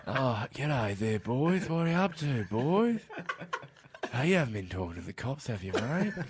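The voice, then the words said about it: Ben Mendelsohn impression, broad Australian. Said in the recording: “You get Ben Mendelsohn doing his proper, "You haven't been talking to the cops, have you, mate?" ... Just put in the clip from Auntie Donna. It's much better than my impression of him ... I would just be doing their impression of him anyway”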